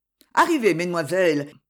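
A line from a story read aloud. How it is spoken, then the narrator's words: Cheerful. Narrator (French): dit gaiement le comte Gisa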